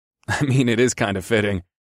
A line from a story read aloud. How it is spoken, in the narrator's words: I chuckled